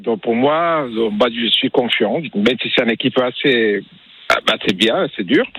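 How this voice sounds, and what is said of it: Slight Mexican accent in French. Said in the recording (French): “vous avez un petit accent quand même ... Vous êtes du Mexique ... vous êtes mexicain”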